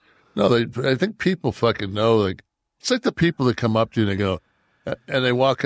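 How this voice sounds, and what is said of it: Usual voice. Nothing is said of it.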